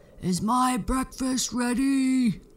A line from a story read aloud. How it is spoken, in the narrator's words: the giant would yell